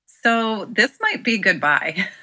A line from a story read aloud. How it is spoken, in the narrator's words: I laugh